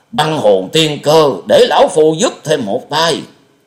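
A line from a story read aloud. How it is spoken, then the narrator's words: Loud shout. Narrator (Vietnamese): Thiên Nhai quát to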